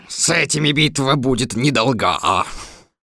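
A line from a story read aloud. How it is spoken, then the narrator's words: Fierce roar. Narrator (Russian): так рявкнул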